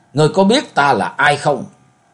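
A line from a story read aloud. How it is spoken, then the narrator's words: Roaring. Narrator (Vietnamese): Ma thượng ma gầm lên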